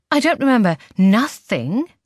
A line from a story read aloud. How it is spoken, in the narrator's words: I exclaim quickly, as if the very idea is ridiculous